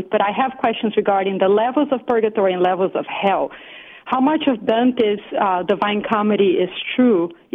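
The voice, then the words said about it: Portuguese-accented English. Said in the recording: “I grew up in Brazil, so you hear the Portuguese accent”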